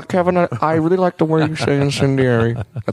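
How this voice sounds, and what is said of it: Poor Lorne Michaels impression. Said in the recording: “That's a terrible impression”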